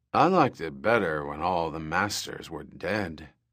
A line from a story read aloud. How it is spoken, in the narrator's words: Gaxar muttered